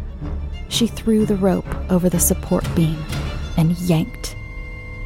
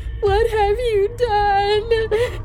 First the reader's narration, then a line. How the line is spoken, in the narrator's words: Mary sobbed